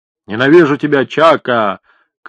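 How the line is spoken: Shouting while running. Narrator (Russian): кричал на бегу Фасимба

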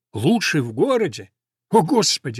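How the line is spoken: Exclaiming. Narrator (Russian): воскликнул Ламонт

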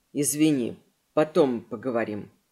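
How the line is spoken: Quiet. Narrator (Russian): Эдвин произнес тихо

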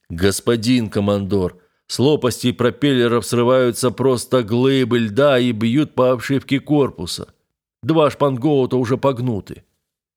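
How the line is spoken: Deep bass voice. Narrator (Russian): боцман пробасил

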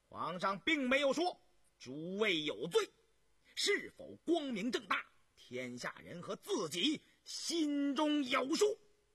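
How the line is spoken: Sharp, grating, echoing voice. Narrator (Chinese): 于宏图尖锐而刺耳的声音响彻了大殿

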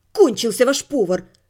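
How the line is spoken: Irritated reply. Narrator (Russian): раздраженно ответила я

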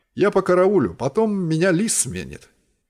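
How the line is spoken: Plain. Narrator (Russian): ответил он

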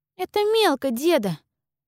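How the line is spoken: Child's reproach. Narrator (Russian): укорила его малявка

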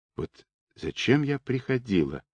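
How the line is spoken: Quiet exhausted voice. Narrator (Russian): произнесла она негромко, измученным голосом

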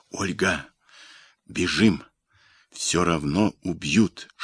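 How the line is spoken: Whisper. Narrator (Russian): шепнул Андрей

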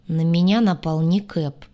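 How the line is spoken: Gloomy. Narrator (Russian): мрачно произнес Двар

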